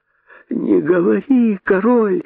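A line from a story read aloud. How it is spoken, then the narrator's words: Groaning chorus. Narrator (Russian): застонали кролики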